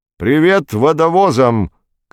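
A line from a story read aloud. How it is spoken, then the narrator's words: Shouted greeting. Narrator (Russian): крикнул астрофизик Никольский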